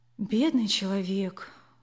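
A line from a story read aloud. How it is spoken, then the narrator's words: Sighing. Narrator (Russian): вздохнула мама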